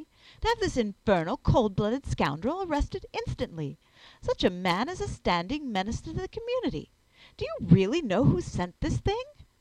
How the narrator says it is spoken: I exclaimed passionately

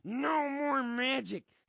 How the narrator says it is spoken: his throat rasps without its usual gravy lube

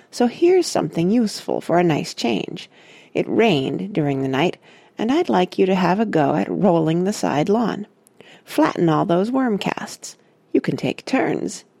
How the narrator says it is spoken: he added kindly

